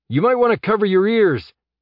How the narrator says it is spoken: Jeb shouted

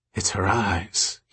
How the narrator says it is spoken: he said faintly

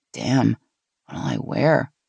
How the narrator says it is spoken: Gina muttered

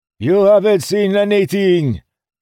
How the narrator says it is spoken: Vliksim shouted

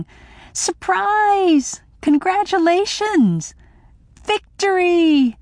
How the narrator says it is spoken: shouting

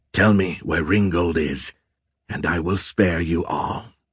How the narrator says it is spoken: Azrael hissed

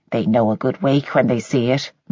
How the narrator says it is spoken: muttered Mrs

